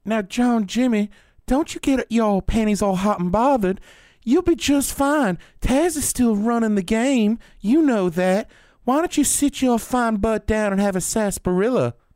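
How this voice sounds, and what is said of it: Put-on Texas accent. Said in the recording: “Good Texas accent. That was pretty good.”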